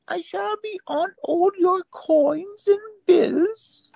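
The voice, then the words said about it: Deliberately bad royal voice impression. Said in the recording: “worst Queen Elizabeth impression ... I find the vowels in the words and accentuate the wrong parts.”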